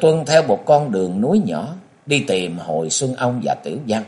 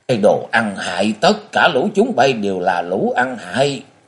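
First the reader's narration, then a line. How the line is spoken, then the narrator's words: Furious thunderous roar. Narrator (Vietnamese): Tây Môn Lập Thiên tức tối điên cuồng quát vang như sấm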